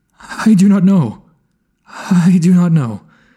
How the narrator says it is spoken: faltered

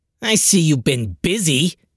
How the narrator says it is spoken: the supreme overlord snapped

